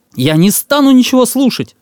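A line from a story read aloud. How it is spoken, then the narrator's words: Boy shouting. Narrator (Russian): закричал мальчишка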